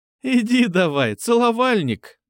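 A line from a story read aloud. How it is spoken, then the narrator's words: Laughing. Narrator (Russian): засмеялась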